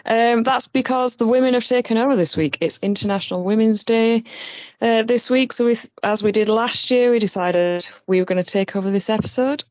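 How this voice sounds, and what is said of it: Woman with a Barnsley accent. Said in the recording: “sounds like a woman with a Barnsley accent ... I love your accent so much”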